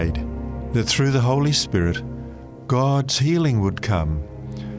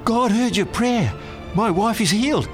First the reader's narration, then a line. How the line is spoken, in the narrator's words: excitedly said